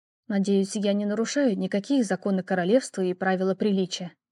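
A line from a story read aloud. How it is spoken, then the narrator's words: Muttered. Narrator (Russian): пробормотала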